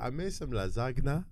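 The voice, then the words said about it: Nigerian accent. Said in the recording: “Nigerian accent ... how does she say it in her accent? ... That's a good accent.”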